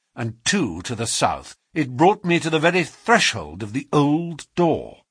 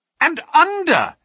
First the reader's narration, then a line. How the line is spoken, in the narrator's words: he cried